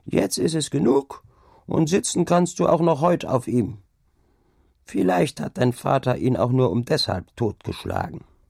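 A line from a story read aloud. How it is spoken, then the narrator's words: Old woman calling. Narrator (German): rief nach einer Weile die Alte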